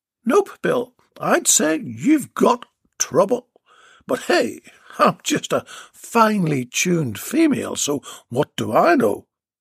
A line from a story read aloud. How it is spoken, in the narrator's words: Beatrice laughed